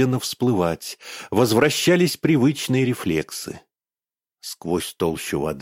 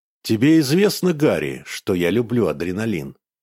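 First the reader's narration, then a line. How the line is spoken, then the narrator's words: Calm. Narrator (Russian): спокойно произнес Иван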